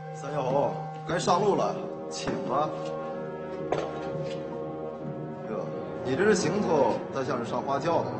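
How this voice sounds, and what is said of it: Shandong regional Chinese accent. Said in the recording (Chinese): “听口音，长官是山东人吧？”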